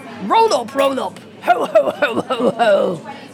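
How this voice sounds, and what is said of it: Santa Claus impression. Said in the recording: “best Santa impression”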